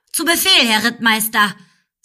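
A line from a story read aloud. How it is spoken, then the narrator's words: Loud. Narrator (German): sagte laut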